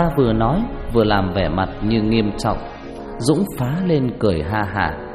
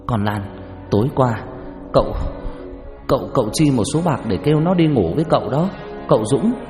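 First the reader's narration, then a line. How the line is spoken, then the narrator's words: Harsh stern voice. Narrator (Vietnamese): Bà Xuân gằn giọng nói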